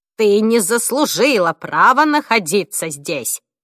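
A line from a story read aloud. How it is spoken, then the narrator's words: Loud. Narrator (Russian): громко произнесла Розмари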